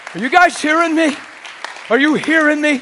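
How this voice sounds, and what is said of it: Shouting. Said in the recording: “I'm shouting a little bit”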